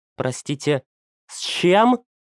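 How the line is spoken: Breathless, trembling voice. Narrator (Russian): выдохнула Валентина, и ее голос предательски дрогнул

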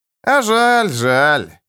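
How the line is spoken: Drawling host. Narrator (Russian): протянул хозяин

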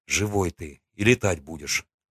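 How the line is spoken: Mumbling. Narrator (Russian): пробормотал я

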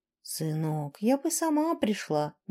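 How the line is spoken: Gentle reproach. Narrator (Russian): мягко укорила она

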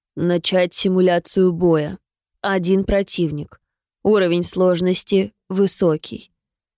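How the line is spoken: Low voice. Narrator (Russian): сказал парень низким голосом

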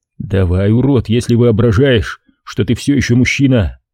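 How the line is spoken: Plain. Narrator (Russian): ответил я

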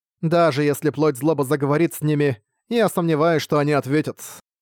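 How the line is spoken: Plain. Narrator (Russian): сказала Дюльнига

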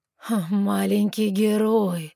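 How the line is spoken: Mocking snort, demon. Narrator (Russian): хмыкнул демон

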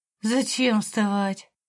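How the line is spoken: Moaning. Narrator (Russian): простонала я

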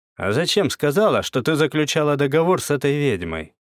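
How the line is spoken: Dry question. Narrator (Russian): сухо спросил Козлов

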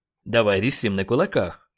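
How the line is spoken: Irritated speech. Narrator (Russian): раздраженно произнес Леджер

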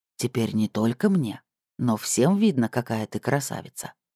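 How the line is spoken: Whispered in the ear. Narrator (Russian): шепнул ей на ухо

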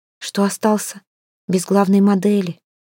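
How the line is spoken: Close whisper. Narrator (Russian): прошептала у его виска

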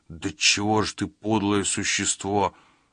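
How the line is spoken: Muttered. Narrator (Russian): пробормотал он

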